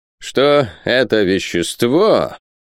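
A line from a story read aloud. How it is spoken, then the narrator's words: Solemn syllable-by-syllable chanting. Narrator (Russian): продолжал профессор, торжественно скандируя каждый слог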